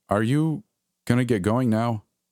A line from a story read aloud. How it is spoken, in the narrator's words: I stammered, unsure of what to say